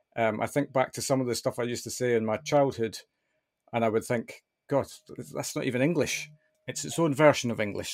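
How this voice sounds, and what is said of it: Mild, softened mixed accent. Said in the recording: “I have a little bit of a mixed accent ... my accent has definitely softened over the years”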